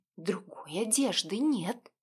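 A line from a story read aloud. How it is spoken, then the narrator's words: Reproachful quiet whisper. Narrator (Russian): укоризненно напомнила тихим шепотом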